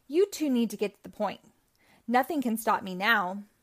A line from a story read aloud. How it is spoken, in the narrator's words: the villain cried